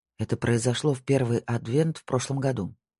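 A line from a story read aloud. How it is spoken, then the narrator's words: Muttered. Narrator (Russian): пробормотал Марк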